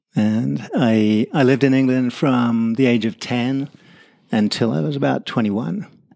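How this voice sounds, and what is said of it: English accent. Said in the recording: “you've got a bit of an accent ... My accent is English”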